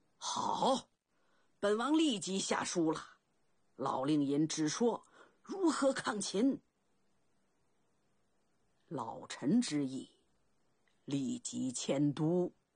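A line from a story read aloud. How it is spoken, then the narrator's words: Loud, forceful declaration. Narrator (Chinese): 楚怀王拍案高声道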